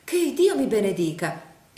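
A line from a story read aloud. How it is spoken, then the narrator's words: Exclaiming. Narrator (Italian): esclamò la signora Nickleby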